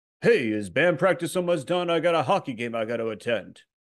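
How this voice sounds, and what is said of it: Rodney Dangerfield impression. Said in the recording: “more Rodney Dangerfield ... Rodney Dangerfield playing the bass as you.”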